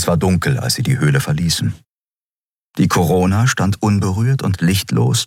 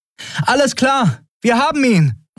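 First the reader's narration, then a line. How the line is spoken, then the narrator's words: Calling out to ship. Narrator (German): rief Andriel dem wartenden Schiff zu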